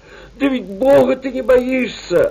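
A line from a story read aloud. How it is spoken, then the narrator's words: Angry. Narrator (Russian): отвечал Савельич сердитым голосом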